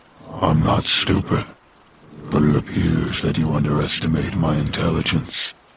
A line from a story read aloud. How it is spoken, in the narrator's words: said in a deep, gravelly voice